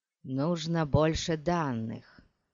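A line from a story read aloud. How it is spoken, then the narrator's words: Muttering. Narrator (Russian): пробормотал он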